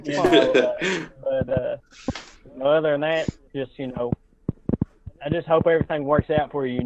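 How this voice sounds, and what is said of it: Deep Kentucky accent. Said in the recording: “I know you're from Fisher, Kentucky. We all are. I think my accent deeper than yours.”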